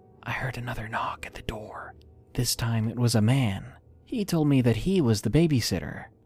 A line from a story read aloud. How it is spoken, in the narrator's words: She said to me in a whisper